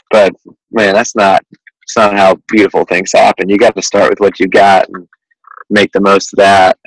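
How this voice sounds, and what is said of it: Southern US drawl. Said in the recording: “the Southern drawl, as you probably gathered from my accent”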